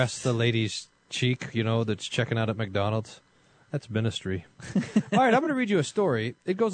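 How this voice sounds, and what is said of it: Usual voice. Nothing is said of it.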